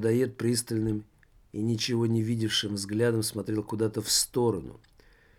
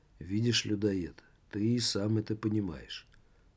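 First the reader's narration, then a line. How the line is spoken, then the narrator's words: Calm. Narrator (Russian): спокойно проговорил Жак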